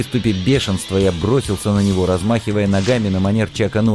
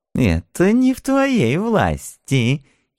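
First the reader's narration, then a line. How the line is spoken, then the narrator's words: Giggling old man. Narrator (Russian): хихикнул старый параноик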